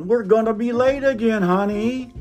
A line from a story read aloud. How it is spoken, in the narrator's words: I shouted from the kitchen